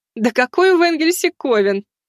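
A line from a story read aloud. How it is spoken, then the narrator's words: Laughing. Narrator (Russian): рассмеялась Марфа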